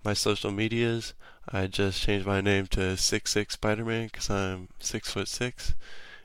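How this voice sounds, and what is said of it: Congested, stuffy-sounding voice. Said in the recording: “sorry if I sound a little weird, because I have a sinus infection”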